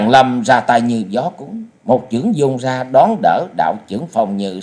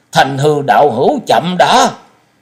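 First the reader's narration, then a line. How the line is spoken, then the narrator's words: Urgent cry. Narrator (Vietnamese): Liễu Phàm đại sư gấp giọng kêu lên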